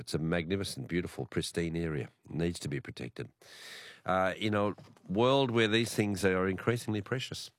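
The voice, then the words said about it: Sick, rough-sounding voice. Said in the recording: “my voice is as crook as a chook”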